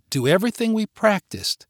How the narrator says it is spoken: she said in a calming voice

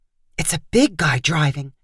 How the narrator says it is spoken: Cass said in almost a whisper

